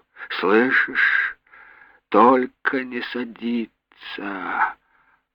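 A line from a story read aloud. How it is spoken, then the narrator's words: Sleepy mumbling. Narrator (Russian): бормотала она, сонно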